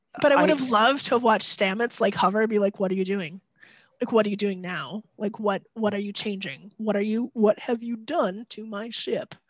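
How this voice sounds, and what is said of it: Impression of Stamets from Star Trek. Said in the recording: “That was a good impression.”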